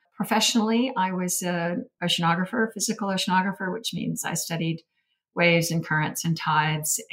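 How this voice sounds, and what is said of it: Slight American accent. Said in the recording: “you have a slight accent, obviously not from Australia ... It is an American, US accent, not a Canadian one. I'd like to think it's softened a bit”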